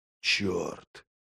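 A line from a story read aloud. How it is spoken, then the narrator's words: Breathed close to ear. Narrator (Russian): выдохнул Логин над самым ухом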